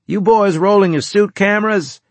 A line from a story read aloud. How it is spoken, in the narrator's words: I boomed, cranking up the external speakers